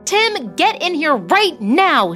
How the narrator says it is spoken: yelled

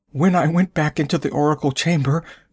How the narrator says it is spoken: she whimpered

